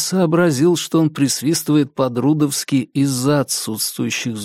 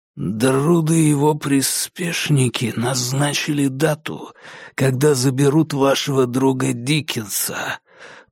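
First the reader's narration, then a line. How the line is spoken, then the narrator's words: Hiss. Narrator (Russian): прошипел он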